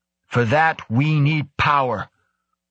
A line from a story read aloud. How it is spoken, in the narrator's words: she bellowed